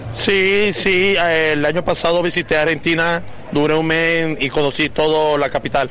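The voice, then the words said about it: Colombian Spanish accent. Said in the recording (Spanish): “¿Y por qué esa tonada? ¿De dónde es usted? ... Yo soy colombiano.”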